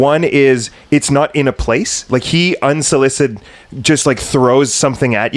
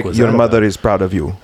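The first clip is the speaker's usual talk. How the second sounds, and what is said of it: Put-on Russian accent. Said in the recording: “I kind of gave him a Russian accent.”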